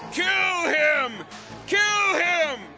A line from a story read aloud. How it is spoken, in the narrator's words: The crowd followed and kept shouting